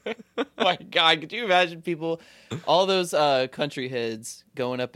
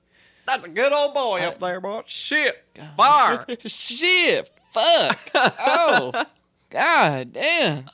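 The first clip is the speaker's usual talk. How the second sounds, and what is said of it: Exaggerated southern country accent. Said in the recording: “My accent would definitely come back out”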